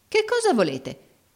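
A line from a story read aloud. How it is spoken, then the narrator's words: Exclamation. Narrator (Italian): esclamò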